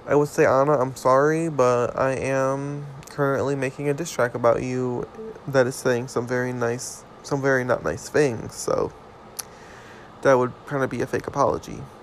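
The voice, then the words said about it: Weird, strained-sounding voice. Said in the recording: “my voice sounds fucking weird... I was screaming so much”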